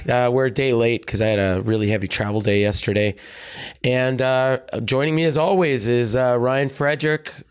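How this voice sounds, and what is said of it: Hoarse, worn-out voice. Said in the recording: “If you can't tell by the sound of my voice, I spent the weekend in Las Vegas cheering at the top of my lungs ... my voice is completely shot”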